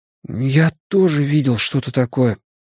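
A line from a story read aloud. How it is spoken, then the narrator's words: Flat hoarse frightened. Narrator (Russian): внезапно признался Бен Хэнском ровным, хриплым, испуганным голосом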